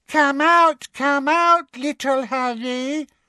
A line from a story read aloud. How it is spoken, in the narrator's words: she called in her mock baby voice, which echoed off the polished wooden floors